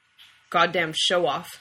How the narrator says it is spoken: Dean grumbled

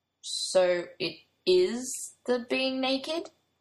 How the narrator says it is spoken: Bradley asks slowly

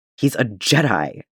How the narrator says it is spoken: Django snaps

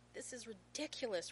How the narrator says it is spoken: Rodney sputters

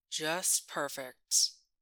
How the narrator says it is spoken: Grace murmurs

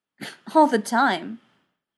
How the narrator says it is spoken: McKay replied with a snort

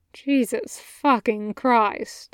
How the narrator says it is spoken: Chuya muttered, trying hard to keep his composure

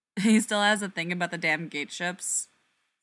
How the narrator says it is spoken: Ford laughs

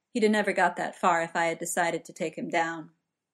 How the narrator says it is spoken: Pembleton said in a level tone

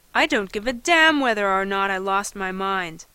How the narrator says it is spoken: he cried

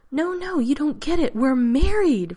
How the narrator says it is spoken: Rodney says, wringing his hands, grinning wildly

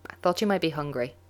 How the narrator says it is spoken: he says, too quickly

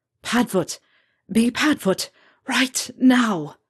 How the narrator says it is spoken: managed to gasp out

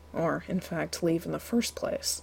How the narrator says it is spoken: John murmured

